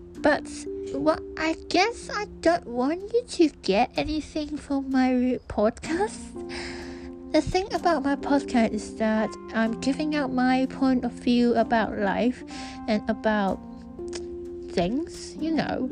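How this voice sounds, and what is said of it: Bad American accent. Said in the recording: “this is my American accent, deal with it, it's bad.”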